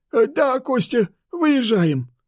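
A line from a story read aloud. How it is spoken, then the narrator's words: Breathed out. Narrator (Russian): Выдохнул он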